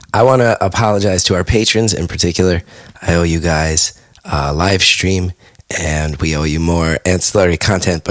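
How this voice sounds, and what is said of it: Hoarse, strained, damaged voice. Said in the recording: “You can hear in my voice already ... I think you can hear my voice is torn to shreds ... it's like I swallowed razor blades”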